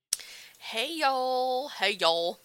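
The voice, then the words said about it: Put-on accent. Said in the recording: “Does anyone else just love a good accent? ... just kidding, I'll quit. I know that's annoying.”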